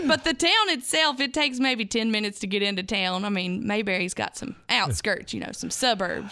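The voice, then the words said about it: North Carolina Southern accent. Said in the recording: “I'm from Mayberry. So I tell people that with this accent ... once you get across the North Carolina line, you're in Mount Airy, North Carolina”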